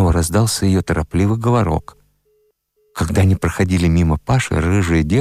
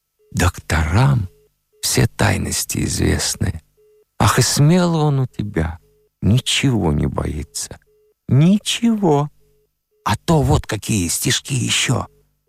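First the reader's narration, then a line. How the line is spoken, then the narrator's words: Sighing, thoughtful. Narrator (Russian): Вздохнув, лодка задумчиво молвила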